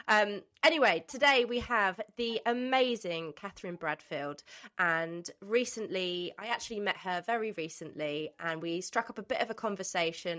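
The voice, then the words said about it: Nasal, congested voice from cold. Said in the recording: “I am full of cough and cold. I'm sounding extremely nasal”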